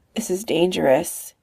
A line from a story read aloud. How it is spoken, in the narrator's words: mumbles at her